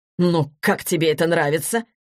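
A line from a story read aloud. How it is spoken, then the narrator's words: Irritated question. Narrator (Russian): раздраженно спросил продюсер у Егора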